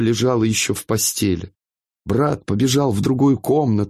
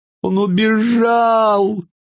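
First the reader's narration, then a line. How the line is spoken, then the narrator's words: Through tears. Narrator (Russian): говорила она сквозь слезы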